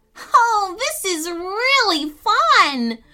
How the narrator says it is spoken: Fran yelled, laughing

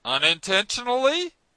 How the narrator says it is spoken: the stranger replied, raising his voice a little

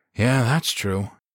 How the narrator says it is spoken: Greer agreed and then sighed

